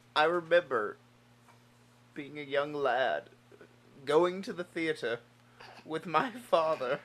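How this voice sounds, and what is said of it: Put-on accent. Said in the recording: “What is this accent?”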